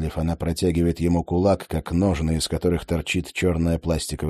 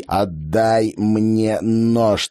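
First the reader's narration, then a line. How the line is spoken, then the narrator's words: Through gritted teeth. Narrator (Russian): цедит он сквозь зубы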